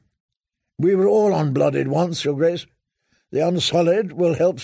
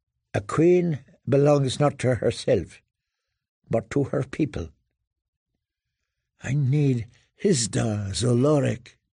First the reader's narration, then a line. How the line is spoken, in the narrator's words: Sir Barristan prompted, gently